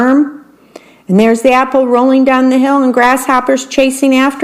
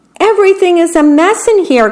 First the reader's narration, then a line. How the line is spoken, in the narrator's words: cried the worm